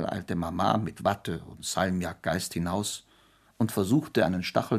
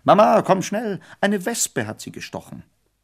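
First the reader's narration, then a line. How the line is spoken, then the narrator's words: Desperate call. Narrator (German): ganz verzweifelt ... rief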